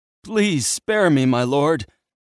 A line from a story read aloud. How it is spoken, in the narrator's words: the man begged